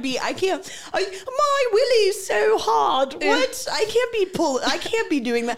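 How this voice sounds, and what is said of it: Put-on British accent. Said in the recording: “If they're British or something ... That's like, a good impression of me.”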